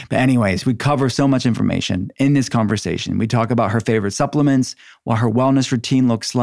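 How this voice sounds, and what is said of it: Usual voice. Nothing is said of it.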